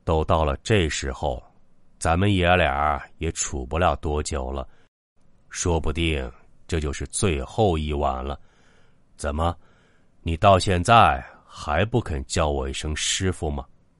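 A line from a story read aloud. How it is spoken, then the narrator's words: Slow deep old man's voice. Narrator (Chinese): 金老头缓缓沉声道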